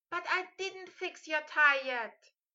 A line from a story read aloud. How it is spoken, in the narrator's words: Hermione yelled in an exasperated voice